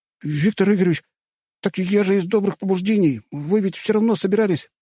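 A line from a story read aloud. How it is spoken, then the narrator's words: Squeak. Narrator (Russian): пискнул Тимур, пытаясь освободиться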